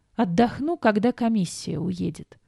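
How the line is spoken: Groan. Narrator (Russian): простонала

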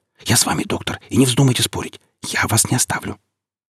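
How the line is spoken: Whispered. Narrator (Russian): прошептала

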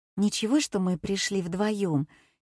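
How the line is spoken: Quiet question. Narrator (Russian): тихонько спросила Катя

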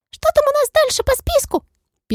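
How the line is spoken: Squeaky. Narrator (Russian): пискнула Моль

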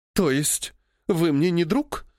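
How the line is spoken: Showy sob. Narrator (Russian): Она показательно всхлипнула

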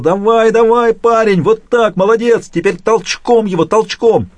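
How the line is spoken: Yelling at top of lungs. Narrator (Russian): заорал во все горло

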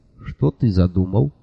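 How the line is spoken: Quiet question. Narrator (Russian): тихо спросил

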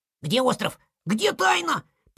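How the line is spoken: Squeaking voices. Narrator (Russian): пищали

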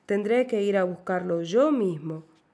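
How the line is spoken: Shouting. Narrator (Spanish): gritó

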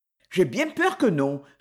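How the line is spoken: Curt reply. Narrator (French): répondit Hetty sèchement

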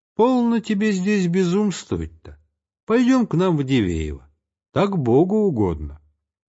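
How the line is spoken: Affectionate. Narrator (Russian): Ульяна Григорьевна обратилась ласково и к самой Пелагее Ивановне

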